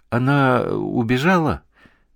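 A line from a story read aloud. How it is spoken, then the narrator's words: Bewildered. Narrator (Russian): растерянно сказала Марина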